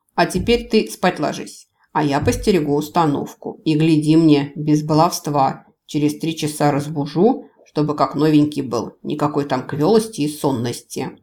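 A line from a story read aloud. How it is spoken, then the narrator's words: Growled. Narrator (Russian): прорычал он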